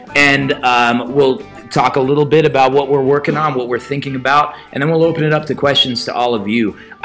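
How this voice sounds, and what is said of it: Hoarse, raspy voice from illness. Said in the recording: “I don't normally sound like a tuberculosis patient. ... I was sick last week, and I'm all recovered except for this. ... my inability to use my voice”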